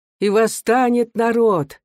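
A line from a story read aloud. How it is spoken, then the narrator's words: Confident, menacing chorus. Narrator (Russian): уверенно и грозно вторил ему хор сильных голосов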